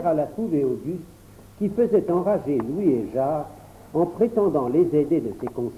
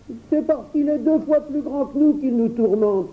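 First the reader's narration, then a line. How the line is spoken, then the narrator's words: Exclaiming. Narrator (French): s'écria Louis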